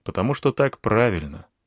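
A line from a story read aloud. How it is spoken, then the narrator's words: Calm answer. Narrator (Russian): ответил спокойно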